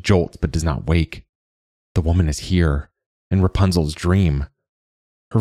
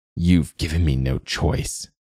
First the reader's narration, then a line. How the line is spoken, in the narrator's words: says through gritted teeth